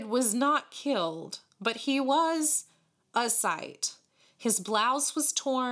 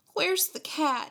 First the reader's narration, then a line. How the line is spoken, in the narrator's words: he asked anxiously